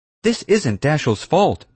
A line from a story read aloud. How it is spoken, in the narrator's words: Mom cried